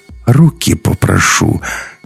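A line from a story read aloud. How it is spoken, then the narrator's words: Almost affectionate. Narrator (Russian): сказал почти ласково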